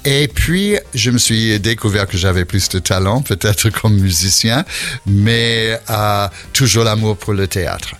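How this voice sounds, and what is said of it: Slight foreign accent in French. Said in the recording (French): “On entend ce petit accent ... petit accent ... j'arrive pas à perdre mon accent”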